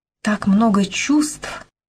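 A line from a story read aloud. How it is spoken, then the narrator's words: Breathless. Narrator (Russian): выдохнула Беркли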